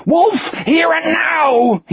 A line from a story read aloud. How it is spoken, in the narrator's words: he screamed